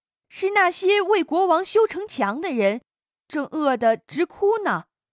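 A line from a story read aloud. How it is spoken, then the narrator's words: Loud call. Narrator (Chinese): 老二千里眼放眼一看，大声叫道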